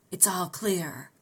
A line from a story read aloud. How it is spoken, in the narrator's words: John Clay whispered